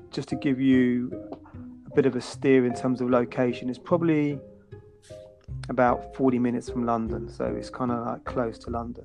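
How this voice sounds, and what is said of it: British southern English accent. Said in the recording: “I'm from the UK. You can probably gauge from my accent ... southern England”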